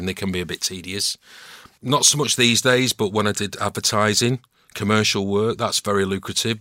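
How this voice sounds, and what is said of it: Warm, mature Northern English voice. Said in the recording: “my voice is old, a bit more mature now ... a lovely, warm voice, Northern Velvet”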